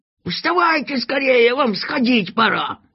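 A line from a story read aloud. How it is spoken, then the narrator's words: Urgent shouting. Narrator (Russian): кричал проводник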